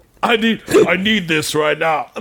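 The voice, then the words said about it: Deep-voiced imitation of another person. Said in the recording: “Why does he have such a deep voice? ... This is my Michael Jordan impression ... your impressions have really fallen off”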